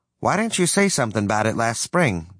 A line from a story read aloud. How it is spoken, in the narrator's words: Dad asked